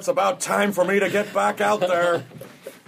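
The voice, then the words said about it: Craig Kilborn impersonation. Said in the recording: “That was my Craig Kilborn impersonation.”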